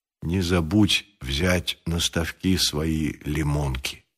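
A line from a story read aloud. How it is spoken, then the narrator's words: Quiet and very serious. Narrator (Russian): сказал он тихо и очень серьезно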